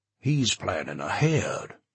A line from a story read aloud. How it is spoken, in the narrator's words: Washington said bitterly